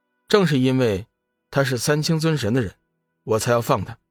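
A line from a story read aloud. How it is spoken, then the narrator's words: Calm and flat. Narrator (Chinese): 龙宇淡淡的说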